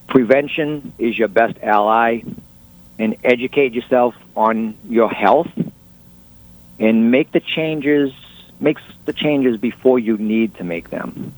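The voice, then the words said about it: Boston accent. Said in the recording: “What's your accent from? ... just outside of Boston”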